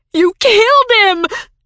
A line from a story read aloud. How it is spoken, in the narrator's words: shrieked Virginia